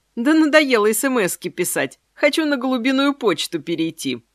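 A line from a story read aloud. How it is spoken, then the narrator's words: Laughing. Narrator (Russian): засмеялась я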